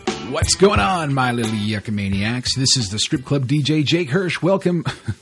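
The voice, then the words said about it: Hyped strip club DJ voice. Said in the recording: “I sound like a strip club DJ right off the bat there.”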